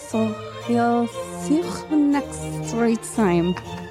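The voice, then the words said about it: Put-on French accent. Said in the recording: “say that again, but in your French accent?”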